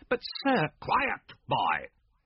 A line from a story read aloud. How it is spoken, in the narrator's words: bellowed Mr